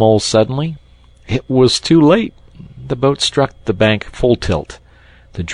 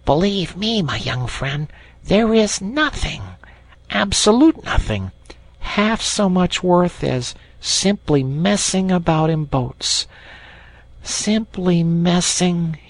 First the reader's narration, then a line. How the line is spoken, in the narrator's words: he went on dreamily